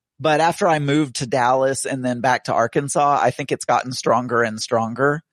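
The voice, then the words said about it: Medium strong Southern US accent. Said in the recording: “most people consider me a southerner ... I would say I have a medium strong Southern accent”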